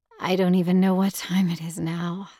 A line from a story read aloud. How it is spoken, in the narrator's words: I said with a sigh